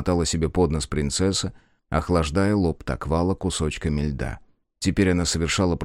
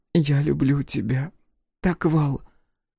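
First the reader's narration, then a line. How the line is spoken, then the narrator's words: Bitter sobbing. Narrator (Russian): Горько всхлипывая, говорила Тера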